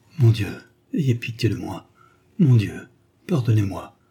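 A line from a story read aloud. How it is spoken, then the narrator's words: Heartbroken murmur. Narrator (French): murmura-t-elle d'une voix déchirante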